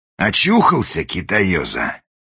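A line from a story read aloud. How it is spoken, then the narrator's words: Menacing question. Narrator (Russian): грозно спросил вошедший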